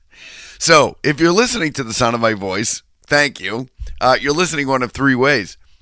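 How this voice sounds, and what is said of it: Voice rough from a cold. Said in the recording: “My voice is a little, you can hear it in my voice. I'm a little under the weather. ... I have a cold, I think.”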